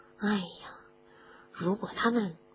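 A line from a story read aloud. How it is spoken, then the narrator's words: Whispered mutter in ear. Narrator (Chinese): 罗恩在哈利的耳边小声的嘀咕着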